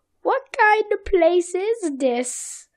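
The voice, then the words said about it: Poor imitation of a cartoon character. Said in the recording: “That's a horrible accent for that”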